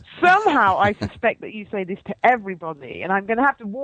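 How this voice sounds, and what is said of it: Attractive, beautiful accent. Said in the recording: “your accent and your voice is so sexy and beautiful”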